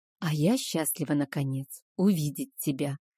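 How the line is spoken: Whispered. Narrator (Russian): прошептала я

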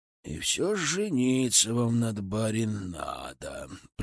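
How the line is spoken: Grumbling. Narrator (Russian): пробурчал я

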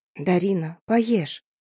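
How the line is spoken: Quiet tearful pleading. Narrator (Russian): попросила я и, тихо заплакав, взмолилась

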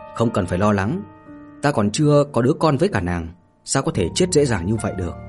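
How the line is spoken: Soft chuckle. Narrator (Vietnamese): Mạnh Hồ khẽ cười

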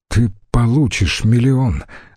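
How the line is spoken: Trembling voice. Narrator (Russian): дрожащим голосом произнес Цицерон

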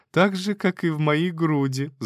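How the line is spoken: Laughing. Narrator (Russian): засмеялась Тася

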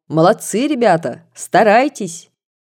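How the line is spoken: Cheerful military-style shout. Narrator (Russian): государь крикнул нам весело по-военному

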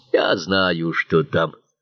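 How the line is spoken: Muttered under breath. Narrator (Russian): пробурчал он себе под нос

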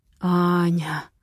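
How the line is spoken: Hoarse moan. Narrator (Russian): хрипло стонет Матвей

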